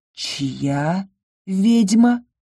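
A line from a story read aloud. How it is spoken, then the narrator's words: Quiet question. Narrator (Russian): тихо уточнил Ингар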